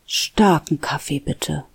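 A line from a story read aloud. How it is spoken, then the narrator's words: Murmured. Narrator (German): murmelte sie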